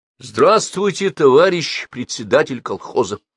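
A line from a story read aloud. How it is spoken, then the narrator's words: Loud greeting. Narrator (Russian): громко поприветствовал его Петр Алексеевич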